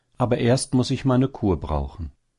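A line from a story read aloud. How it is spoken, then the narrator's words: Sighing female hare. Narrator (German): sagte die Häsin seufzend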